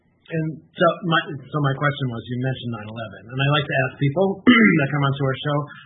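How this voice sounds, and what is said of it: Slightly nasal, congested voice. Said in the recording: “I'm fighting a cold, so if I sound a little nasal,”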